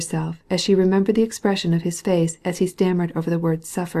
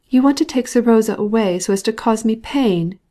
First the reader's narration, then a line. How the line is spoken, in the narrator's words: she cried, glaring at him